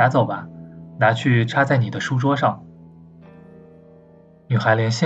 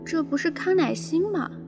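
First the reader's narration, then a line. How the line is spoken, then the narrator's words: Muttering. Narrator (Chinese): 他小声嘀咕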